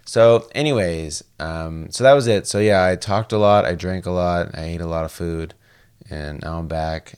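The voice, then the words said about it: Tired, unusual-sounding voice. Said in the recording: “my voice sounds weird or if I'm tired ... Kind of sounds sexy”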